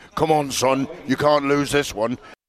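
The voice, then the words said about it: Poor imitation of another person's voice. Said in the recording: “that's the worst John Fury impression I've ever heard in my life ... It was terrible.”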